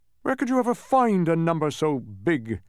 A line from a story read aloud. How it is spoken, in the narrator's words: scoffed the humbug